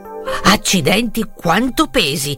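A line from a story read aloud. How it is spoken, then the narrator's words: Exclaiming. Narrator (Italian): esclamò rivolto al sacco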